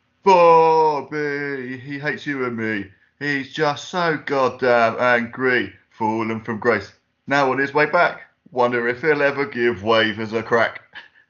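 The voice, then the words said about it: Generic Estuary football-fan accent. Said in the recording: “What accent was that? ... Just generic football town. Estuary, mob. ... Cully, sort of. Nice, that's good.”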